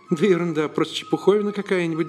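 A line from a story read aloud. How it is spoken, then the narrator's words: Trembling voice. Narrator (Russian): дрожащим голосом ответил ему Теодор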